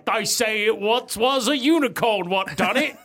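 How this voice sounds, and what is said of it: Put-on Cockney accent. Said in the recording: “I don't know why they're talking in Cockney accent.”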